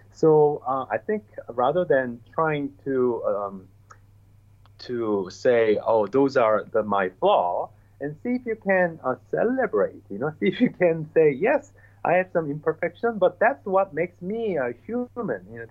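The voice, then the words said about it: Asian-accented English. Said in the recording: “my English, had a lot of accent. I still do ... I have an accent because I am from Asia.”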